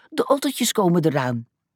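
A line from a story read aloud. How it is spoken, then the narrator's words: Called out. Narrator (Dutch): Haas riep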